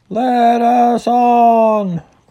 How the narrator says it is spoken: cried the others

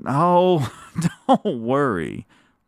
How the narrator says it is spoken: laughed Mrs

